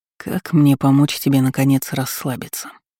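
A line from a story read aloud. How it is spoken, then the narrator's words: Quiet. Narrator (Russian): Негромко спросил он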